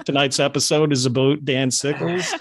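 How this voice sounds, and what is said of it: Put-on Canadian accent. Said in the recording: “I'm trying to do my Canadian accent here.”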